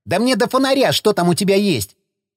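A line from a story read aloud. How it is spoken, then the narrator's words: Unusually insolent snap. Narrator (Russian): Непривычно дерзко огрызнулся Загорский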